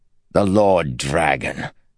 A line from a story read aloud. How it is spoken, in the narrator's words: Candler said with a snort